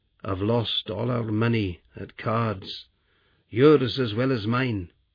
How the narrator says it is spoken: said miserably

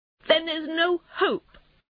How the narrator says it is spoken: cried Toad miserably

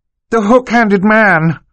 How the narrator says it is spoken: Violet shouted

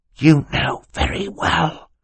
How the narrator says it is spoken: Klaus hissed to his sister

